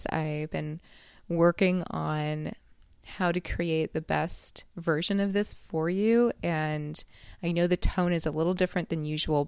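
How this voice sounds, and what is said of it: Slightly tired voice. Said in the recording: “I'm recording this kind of late at night, so if my voice is a little tired”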